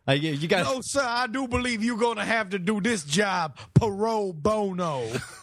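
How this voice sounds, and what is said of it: Stereotypical prison warden accent. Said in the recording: “my accent is a little hard to get around since I'm doing an accent of a stereotypical prison warden”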